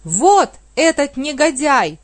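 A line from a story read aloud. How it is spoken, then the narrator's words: Shouted. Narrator (Russian): закричал Вега судье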